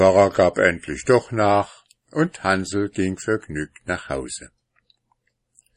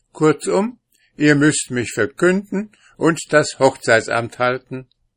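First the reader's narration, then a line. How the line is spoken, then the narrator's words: Insistent. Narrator (German): bestand auf seinem Begehren und sagte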